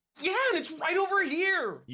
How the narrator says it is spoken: You scream

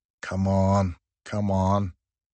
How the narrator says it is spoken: I could hear Messina and a few others muttering under their breaths

